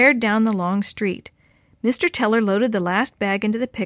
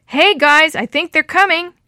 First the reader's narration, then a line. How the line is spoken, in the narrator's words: shouted Willie